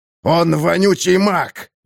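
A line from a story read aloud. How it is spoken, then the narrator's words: Near growl. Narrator (Russian): почти зарычал ловкач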